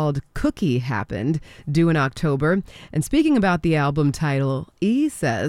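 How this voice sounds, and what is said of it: Usual voice. Nothing is said of it.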